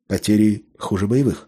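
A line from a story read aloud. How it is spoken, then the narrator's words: Grim. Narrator (Russian): мрачно констатировал майор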